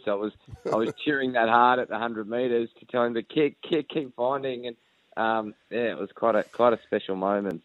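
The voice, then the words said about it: Hoarse, nearly lost voice. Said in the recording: “you can probably hear my voice, guys. I actually lost my voice.”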